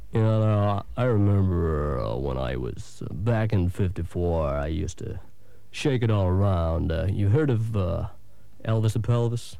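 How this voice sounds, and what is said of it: Yorkshire accent. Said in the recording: “I was born in Wakefield, Yorkshire, as you can tell by my accent.”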